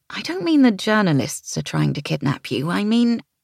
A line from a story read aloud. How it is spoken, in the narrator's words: I sighed